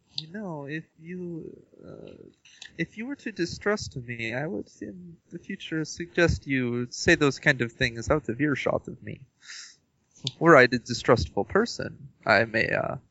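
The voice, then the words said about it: Shifting put-on foreign accent. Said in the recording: “What accent are you? ... I've changed from, like, Japanese to Russian to Hispanic, like, several times.”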